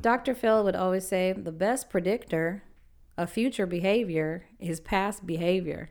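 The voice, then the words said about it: Attempted Texan accent. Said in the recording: “Did I do a good Texan accent? ... Yeah, I think that's pretty good. ... No, I know it wasn't.”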